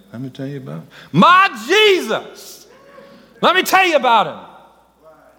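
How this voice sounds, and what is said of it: Shouting praise. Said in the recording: “I ain't singing it, I'm shouting it.”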